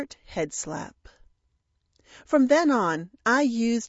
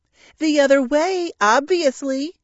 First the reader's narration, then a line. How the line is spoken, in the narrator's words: exclaimed in exasperation